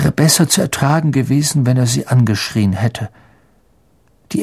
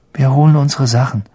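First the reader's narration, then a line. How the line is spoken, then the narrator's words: Weary, faint voice. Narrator (German): sagte Ron mit matter Stimme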